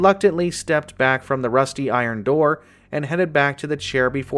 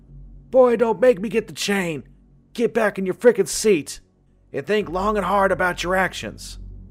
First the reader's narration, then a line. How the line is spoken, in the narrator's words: yell out from the other side